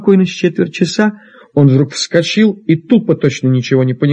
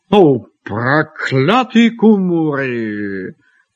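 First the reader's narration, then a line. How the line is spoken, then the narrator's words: Grumbling. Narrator (Russian): проворчал он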